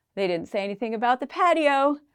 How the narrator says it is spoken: the roommate laughed and replied

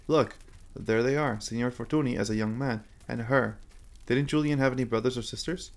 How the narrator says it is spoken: The caretaker ... let out a sigh

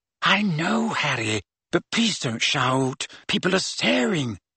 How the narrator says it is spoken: whispered Hermione

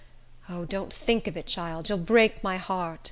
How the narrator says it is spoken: she would groan out

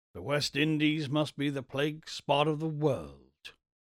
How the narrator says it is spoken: muttered Buckner

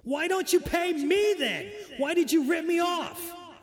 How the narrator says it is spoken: Bell screams back

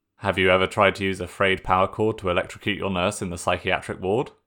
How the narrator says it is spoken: asked flatly

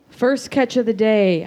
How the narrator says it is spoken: I purr

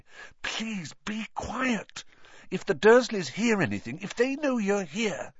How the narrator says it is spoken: Harry whispered frantically

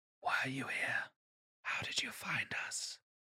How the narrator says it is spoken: A whispered voice asks

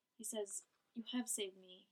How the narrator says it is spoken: he said quietly

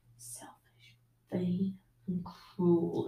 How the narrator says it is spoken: the hard little voice of whispering

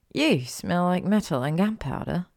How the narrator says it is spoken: she murmured

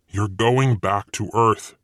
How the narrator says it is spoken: Satan snarled

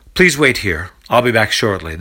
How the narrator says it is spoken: the servant responds in a stern tone

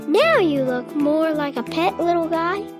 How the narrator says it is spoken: he said happily

